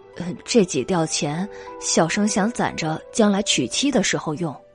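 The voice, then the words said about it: Quiet, soft-spoken reply. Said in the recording (Chinese): “小声的回答”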